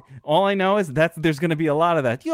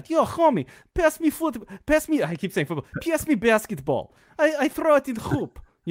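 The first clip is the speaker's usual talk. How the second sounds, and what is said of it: Mock Russian-style accented English. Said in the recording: “That sounds like the Russians on Grand Theft Auto ... That's a great impression”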